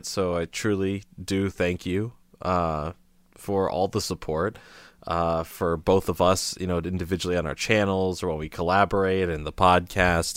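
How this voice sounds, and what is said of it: Slightly raspy voice. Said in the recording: “my voice sounds a little raspy ... I'm like kind of moderately under the weather”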